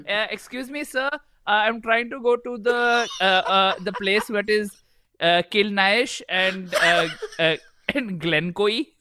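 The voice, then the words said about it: Put-on Indian accent. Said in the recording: “Do it in your Indian accent.”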